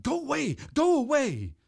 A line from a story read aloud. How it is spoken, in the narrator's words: I ... shouted